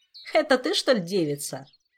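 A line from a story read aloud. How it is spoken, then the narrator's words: Mocking. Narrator (Russian): насмешливо произнес он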